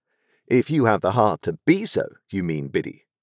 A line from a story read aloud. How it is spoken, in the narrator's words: said I, in a virtuous and superior tone